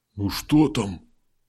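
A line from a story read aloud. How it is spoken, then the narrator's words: Whisper. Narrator (Russian): шепнул Дым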